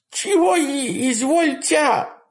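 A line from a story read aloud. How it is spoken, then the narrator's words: Terrified babbling. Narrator (Russian): пролепетал в усмерть перепуганный Дармидонт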